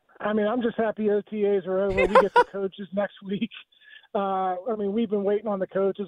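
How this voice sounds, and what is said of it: Lazy Pittsburgh accent. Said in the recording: “my lazy Pittsburgh dialect”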